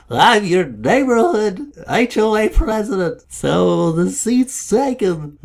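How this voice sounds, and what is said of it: Imitates another person's voice. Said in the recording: “my Nixon impression.”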